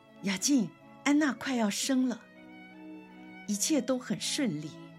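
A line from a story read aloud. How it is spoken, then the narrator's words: Shouting while running. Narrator (Chinese): 有位妇女边喊边跑说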